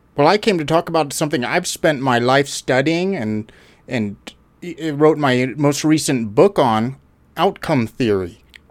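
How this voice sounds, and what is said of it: Canadian accent. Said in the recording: “I'm a Canadian, Alberta. ... I should recognize the accent. ... people on that show do have a similar accent.”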